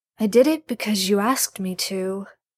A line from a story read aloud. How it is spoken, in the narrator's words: Gabriel says quietly